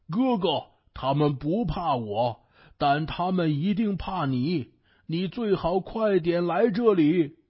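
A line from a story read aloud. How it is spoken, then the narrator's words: Pig shouting. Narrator (Chinese): 猪对孙悟空喊道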